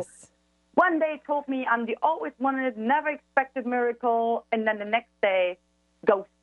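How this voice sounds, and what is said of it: Noticeable accent, somewhat hard to understand. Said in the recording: “it's hard with your accent ... I love your accent. I just got to make sure the audience hears you clearly”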